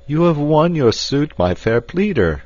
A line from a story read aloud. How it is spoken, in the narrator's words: cried the captain